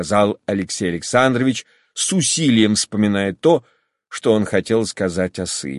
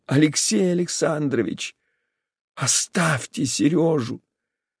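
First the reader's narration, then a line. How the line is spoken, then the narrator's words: Whisper. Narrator (Russian): прошептала она еще раз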